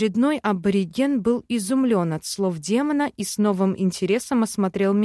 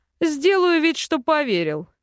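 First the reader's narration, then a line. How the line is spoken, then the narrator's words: Man's chuckle. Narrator (Russian): хохотнул мужчина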